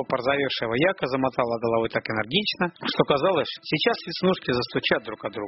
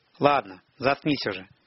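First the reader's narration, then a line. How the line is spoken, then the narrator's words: Tired. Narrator (Russian): сказал Тимур устало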